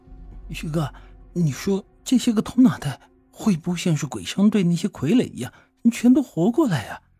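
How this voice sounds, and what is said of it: Trembling, whispered voice. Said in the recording (Chinese): “用颤抖的声音对我小声的说道”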